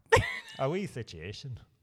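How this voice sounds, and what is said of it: Northern Irish accent, like Eamon Holmes. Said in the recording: “Northern Irish ... Can you do the accent? ... Oh, that's really good. That's like Eamon Holmes.”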